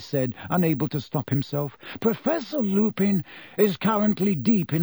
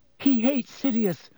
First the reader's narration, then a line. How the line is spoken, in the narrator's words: Hermione said desperately